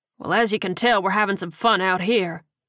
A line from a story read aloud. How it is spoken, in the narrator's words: Hammond said dryly